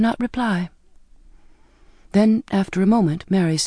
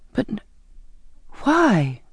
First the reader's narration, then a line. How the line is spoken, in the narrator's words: I pleaded